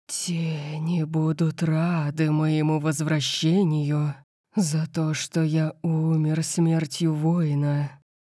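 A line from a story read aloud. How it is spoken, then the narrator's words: Low guttural growl. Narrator (Russian): прорычала нимфа гортанным низким голосом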